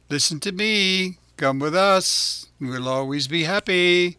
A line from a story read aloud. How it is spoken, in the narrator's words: Lampwick called out